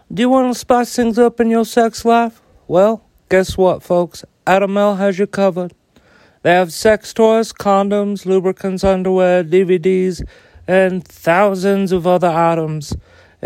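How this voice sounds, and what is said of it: Imitates another person's voice. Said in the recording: “your Jimmy Carter impression”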